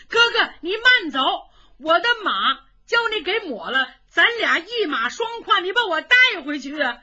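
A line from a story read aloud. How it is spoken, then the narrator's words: Hurried shout. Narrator (Chinese): 尤俊达 冲着程咬金喊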